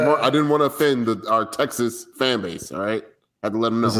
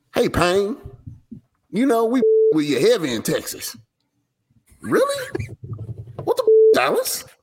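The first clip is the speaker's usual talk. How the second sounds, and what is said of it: Put-on Texas accent. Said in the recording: “Texas accent”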